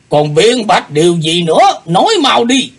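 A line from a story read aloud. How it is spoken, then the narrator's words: Roaring demand. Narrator (Vietnamese): Lão nhân gầm hỏi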